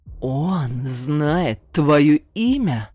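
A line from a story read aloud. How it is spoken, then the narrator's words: Furious growl through teeth. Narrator (Russian): с нескрываемой злостью спросил Ибрагим и, стиснув зубы, прорычал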